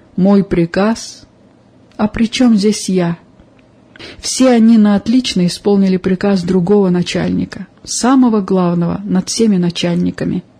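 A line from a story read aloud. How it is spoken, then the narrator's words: Calm, friendly. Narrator (Russian): Хозяин кабинета с несвойственной ему доброжелательностью взглянул на своего подчиненного, улыбнулся и спокойно ответил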